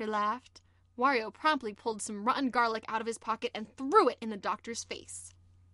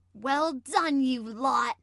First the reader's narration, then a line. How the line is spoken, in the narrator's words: he shouted happily